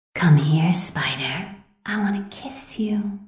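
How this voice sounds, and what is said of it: Sexy, sultry character voice. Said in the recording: “my sexy Black Cat voice”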